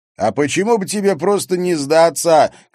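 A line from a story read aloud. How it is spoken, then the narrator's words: Shouted. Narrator (Russian): крикнул Харри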